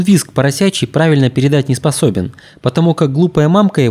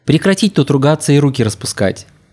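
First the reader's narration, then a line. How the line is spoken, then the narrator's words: Normal voice. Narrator (Russian): Затем уже обычным голосом продолжил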